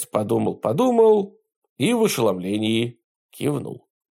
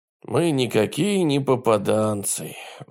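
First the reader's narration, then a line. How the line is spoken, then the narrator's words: Sighing. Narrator (Russian): вздохнул он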